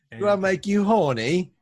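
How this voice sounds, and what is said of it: Imitates a comedic British character voice. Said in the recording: “Austin. Oh, that could have been a good sixth accent.”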